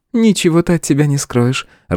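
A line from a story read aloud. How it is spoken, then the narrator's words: Laughing. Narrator (Russian): рассмеялась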